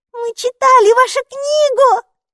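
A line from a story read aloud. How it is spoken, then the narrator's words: Excited shout. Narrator (Russian): закричала Майки, подпрыгивая на одном месте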